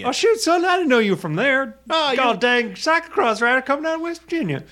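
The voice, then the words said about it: Mock West Virginia accent. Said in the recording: “that is not a West Virginia accent ... I feel like ... wasn't awful ... At the beginning, it was okay.”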